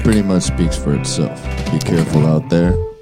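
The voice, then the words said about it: Soothing, calm public-broadcast style voice. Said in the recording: “puts on his PBS voice ... Very soothing ... It's so soothing”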